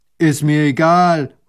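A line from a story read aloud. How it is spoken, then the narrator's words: Farmer calling out. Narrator (German): ruft der Bauer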